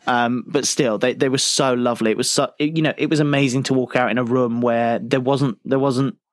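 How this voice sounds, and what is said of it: British accent. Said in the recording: “My accent probably did half the work for me. I feel like that the novelty of being a British person really helped me there.”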